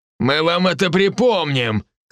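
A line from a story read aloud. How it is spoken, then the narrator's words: Shouted. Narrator (Russian): крикнул другой парень из толпы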